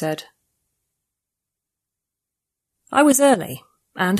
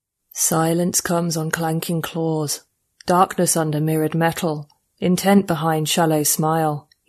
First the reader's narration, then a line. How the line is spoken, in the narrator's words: he said, a subsonic rumble pitched up to human hearing by a transcoder strapped around his thick stub of a neck